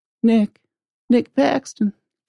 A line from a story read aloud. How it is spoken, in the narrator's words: he exclaimed